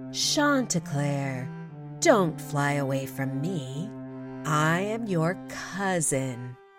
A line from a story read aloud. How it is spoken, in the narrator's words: Renard spoke in a sweet voice, calling out